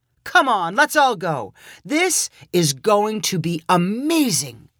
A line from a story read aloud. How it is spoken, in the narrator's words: cried Dave